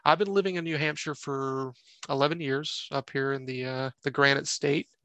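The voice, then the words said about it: Slight Southern US accent. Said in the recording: “If you can't tell by the accent, uh, it's kind of coming through a little bit here ... Originally from North Carolina, born and raised”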